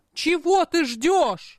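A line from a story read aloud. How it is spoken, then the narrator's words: Yelling. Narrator (Russian): заорал Эйч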